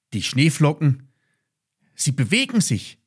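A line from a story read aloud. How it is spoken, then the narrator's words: Surprised exclamation. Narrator (German): rief Ben überrascht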